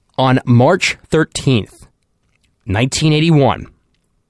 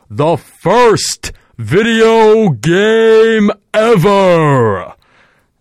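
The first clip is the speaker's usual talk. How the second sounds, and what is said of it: Loud booming announcer voice. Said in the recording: “Let me say that in a nice announcer voice. ... I hope I didn't blow your eardrums out with that.”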